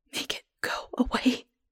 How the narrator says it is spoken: I whisper

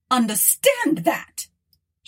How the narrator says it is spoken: shouted Arthur

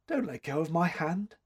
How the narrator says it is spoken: whispered faintly

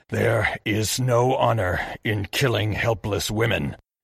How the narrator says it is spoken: he snarled at Narihiro

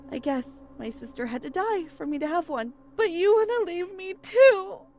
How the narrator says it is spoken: cried

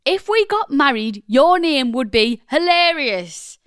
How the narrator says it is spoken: My boyfriend shouted

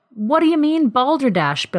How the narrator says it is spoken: Bill exclaimed

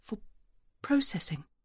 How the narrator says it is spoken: whispers the supervisor

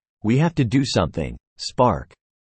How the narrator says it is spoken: Alex exclaimed, his voice filled with determination

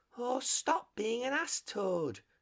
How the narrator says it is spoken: cried the mole despairingly

